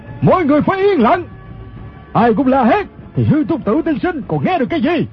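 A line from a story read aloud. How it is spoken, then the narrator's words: Commanding shout. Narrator (Vietnamese): Người quát lên chính là thủ lãnh quần hào Ô Lão Đại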